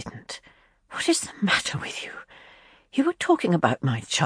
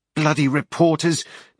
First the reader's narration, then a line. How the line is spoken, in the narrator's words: Jenny snapped